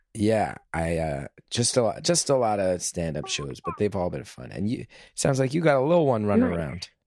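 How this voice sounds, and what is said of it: Hoarse, strained voice. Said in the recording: “My voice is a little blown out ... I was picking up on that a little bit. You sounded hoarse.”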